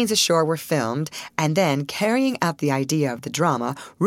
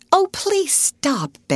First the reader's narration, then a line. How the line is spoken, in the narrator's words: begged Alice, after two or three of these scares